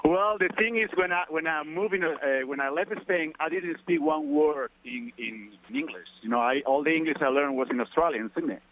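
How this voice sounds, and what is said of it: Spanish accent with Australian traces. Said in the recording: “I think I actually hear your Spanish Australian accent.”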